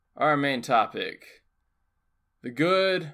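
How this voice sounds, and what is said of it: Usual voice. Nothing is said of it.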